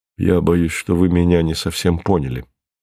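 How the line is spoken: Gentle remark. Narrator (Russian): мягко заметил Мартин

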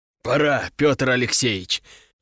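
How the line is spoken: Hoarse wheeze. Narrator (Russian): прохрипел Нартов

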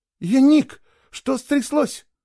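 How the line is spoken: Sudden cry. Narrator (Russian): вскрикнула одна из них

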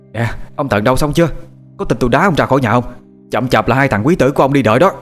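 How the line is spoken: Loud shouting. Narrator (Vietnamese): Bà quát lớn

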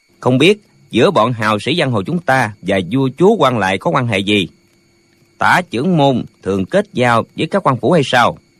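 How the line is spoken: Smiling speech. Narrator (Vietnamese): Lệnh hồ xung mỉm cười nói

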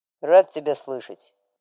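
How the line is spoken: Muttered over the phone. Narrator (Russian): пробурчала в трубке

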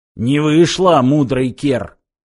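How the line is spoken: Growling, mangy creature. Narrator (Russian): прорычал облезлый

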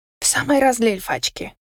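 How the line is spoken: Uneasy mutter. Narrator (Russian): пробормотала я, чувствуя, что крепко влипла в какую-то крупную авантюру

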